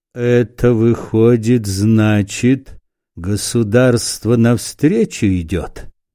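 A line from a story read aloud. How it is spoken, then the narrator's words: Gloomy. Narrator (Russian): сказал он мрачно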